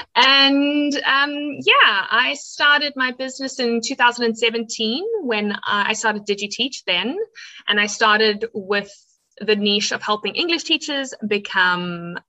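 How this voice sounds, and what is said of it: South African accent. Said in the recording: “I am a South African who, if you want to hear my funny accent, that's where I'm from.”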